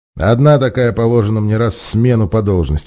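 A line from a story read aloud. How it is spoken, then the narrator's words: Grumbled. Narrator (Russian): пробурчал Арториус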